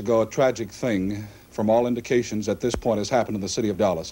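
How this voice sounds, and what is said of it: Out of breath, panting speech. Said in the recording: “You'll excuse the fact that I'm out of breath ... you'll excuse me if I am out of breath”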